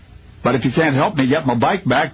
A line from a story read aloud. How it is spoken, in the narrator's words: the child blurted through angry tears